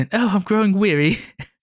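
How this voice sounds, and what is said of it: Put-on old English accent. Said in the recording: “You gotta use like an old English accent.”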